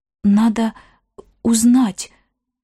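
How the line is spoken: Forced out with effort. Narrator (Russian): выдавила она через силу

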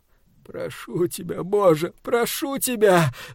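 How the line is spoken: Moaning. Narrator (Russian): стонал он

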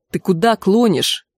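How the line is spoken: Angry question. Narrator (Russian): сердито спросил Трев

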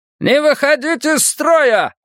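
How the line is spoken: Repeated yelling. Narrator (Russian): орал кто-то каждую минуту

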